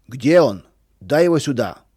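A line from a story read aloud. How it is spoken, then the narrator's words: Shouting. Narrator (Russian): кричал Федор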